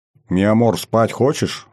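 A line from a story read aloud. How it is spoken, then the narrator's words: Plain. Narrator (Russian): спросил я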